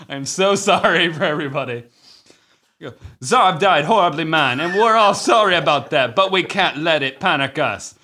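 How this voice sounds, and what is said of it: Put-on Rasta accent. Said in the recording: “In my Rasta voice,”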